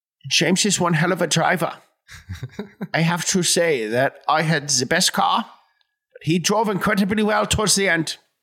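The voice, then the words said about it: Impression of Daniel Brühl's Niki Lauda. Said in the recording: “It was an impression. ... You got the like teeth in there. That's a big part of the impression is getting that, the big teeth. ... It was like an impression of the guy from the movie. ... Daniel Brühl.”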